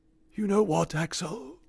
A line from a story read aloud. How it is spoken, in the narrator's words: he whispered, as he lay dying